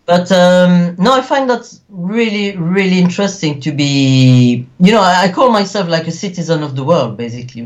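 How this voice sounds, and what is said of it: Belgian-French accent. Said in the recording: “you can tell by the accent that I haven't lost my Belgian-French accent.”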